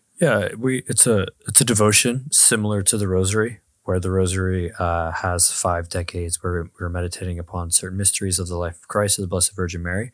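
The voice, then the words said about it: Hoarse, strained, fading voice. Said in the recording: “I'm losing my voice ... your podcast voice is going to be quite interesting today ... I don't know if this is a good radio voice”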